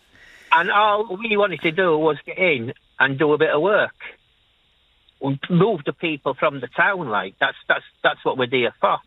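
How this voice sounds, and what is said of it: Leeds Yorkshire accent. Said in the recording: “how much I love your accent ... It's Leeds, Yorkshire.”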